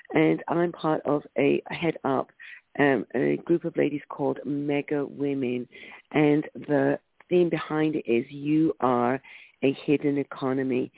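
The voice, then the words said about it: London English accent. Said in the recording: “The accent's from London”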